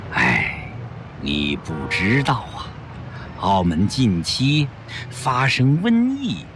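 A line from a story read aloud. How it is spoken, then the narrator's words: Sighing. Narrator (Chinese): 宽灵法师叹了口气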